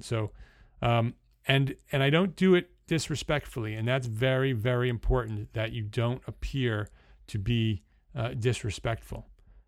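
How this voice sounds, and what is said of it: New Jersey accent. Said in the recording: “my accent changes from New Jersey, which is what you're hearing right now, because that's where I was born and bred.”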